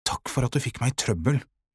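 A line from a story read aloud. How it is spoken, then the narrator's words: Whisper. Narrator (Norwegian): hvisket han til Sara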